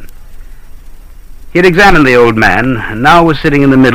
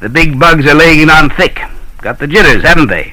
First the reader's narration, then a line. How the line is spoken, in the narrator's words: the old man chuckled excitedly